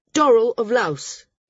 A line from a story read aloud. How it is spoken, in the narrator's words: said loudly